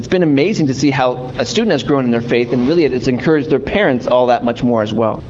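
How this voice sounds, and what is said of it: Canadian accent. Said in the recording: “I'm Canadian, if you can't hear any accent.”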